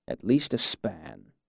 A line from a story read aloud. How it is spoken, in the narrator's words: muttered